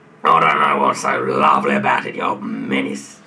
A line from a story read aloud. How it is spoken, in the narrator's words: snarled Mr